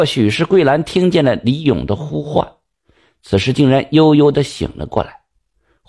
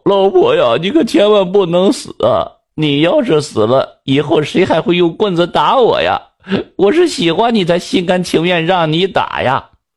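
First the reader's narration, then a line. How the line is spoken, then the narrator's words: Wailing. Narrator (Chinese): 李勇放声大哭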